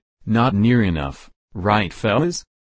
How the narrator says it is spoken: He chuckled, then added

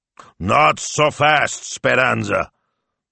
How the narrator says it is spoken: bellowed Signor Maestro

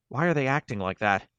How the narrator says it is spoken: Maureen said, a quiver in her voice betraying the fear she felt

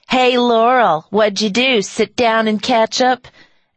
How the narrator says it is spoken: Three pimply-faced boys who jeered and called

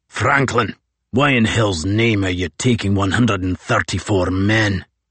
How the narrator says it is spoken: rasped the Holystone

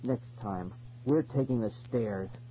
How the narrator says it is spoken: Ben growled

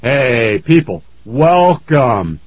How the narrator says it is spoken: Uncle Joey boomed

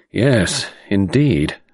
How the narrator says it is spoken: sighed

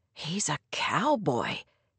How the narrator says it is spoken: Dan hissed, making it sound as though Clay's close-fitting jeans and jacket were the garb of a man just released from jail

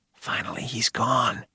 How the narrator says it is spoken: Billy whispered

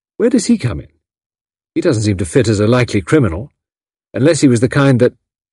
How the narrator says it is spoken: She stopped, hastily biting off

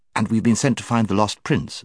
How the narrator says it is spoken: said Jill, who had been anxiously waiting to get into the conversation

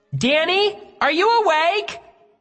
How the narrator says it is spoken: Her shouts made my eardrums throb

